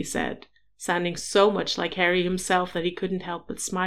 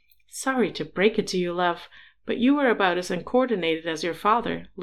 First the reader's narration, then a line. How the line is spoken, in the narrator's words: Louis teased